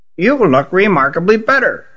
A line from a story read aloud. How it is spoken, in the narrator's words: she said in a reedy voice